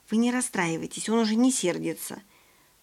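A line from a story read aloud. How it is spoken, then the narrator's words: Whispered. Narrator (Russian): Костя шепнул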